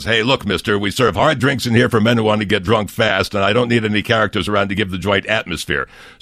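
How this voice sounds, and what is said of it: Imitates another person's voice. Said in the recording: “what a great impression that was ... the beautiful performance ... Sheldon Leonard impersonators”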